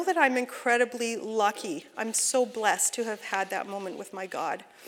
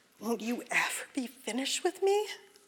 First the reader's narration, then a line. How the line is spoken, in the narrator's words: my feelings subsided enough for me to ask him in a sort of humiliated whisper